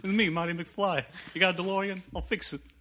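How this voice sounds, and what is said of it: Put-on accent as Marty McFly. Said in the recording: “when did you get this accent?”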